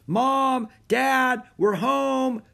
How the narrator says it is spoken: shouted Annie

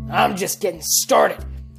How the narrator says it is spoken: he growled

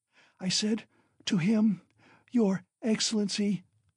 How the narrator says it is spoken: she ejaculated, gasping after each word

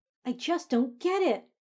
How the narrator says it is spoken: Hermione cried out

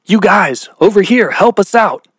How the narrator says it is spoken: he yelled back at the group of punks

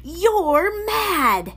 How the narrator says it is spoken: Basil smiled his terrible smile

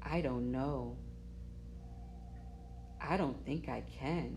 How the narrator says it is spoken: put her head down and mumbled

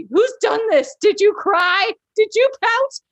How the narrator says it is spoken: people screeching above the panic

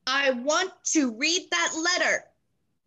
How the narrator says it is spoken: he said loudly

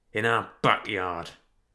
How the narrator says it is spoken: muttered Sherman through gritted teeth

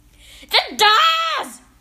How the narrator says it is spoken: shouted the Grand High Witch in a voice that filled the room and bounced around the walls

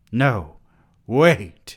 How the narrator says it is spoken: Perry cried

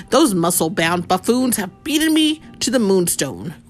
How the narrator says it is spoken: Grandmaster grumbled

